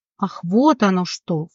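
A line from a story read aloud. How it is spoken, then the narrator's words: Snorting. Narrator (Russian): фыркнула Леона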